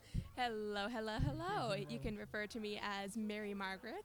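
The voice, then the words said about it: Polished radio-host voice. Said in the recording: “I like its calm, cool demeanor, as do I like your radio voice there”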